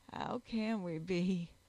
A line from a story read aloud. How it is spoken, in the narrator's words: groaned